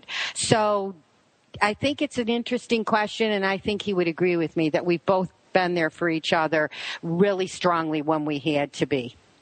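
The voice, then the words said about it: Buffalo, New York accent. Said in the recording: “What is your accent? ... It's Buffalo, New York. ... everybody says I have this accent ... in this great New York accent”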